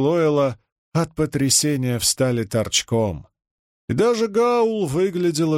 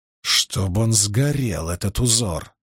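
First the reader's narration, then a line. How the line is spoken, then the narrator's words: Growled. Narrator (Russian): прорычал Перин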